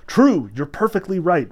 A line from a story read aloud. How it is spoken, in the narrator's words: Woland cried resoundingly and terribly